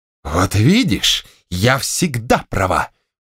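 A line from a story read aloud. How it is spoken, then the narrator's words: Exclamation. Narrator (Russian): воскликнула Степанида Ивановна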